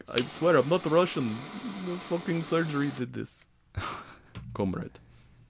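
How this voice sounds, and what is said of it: Bad put-on Russian accent. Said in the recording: “That's gonna be your bad Russian accent.”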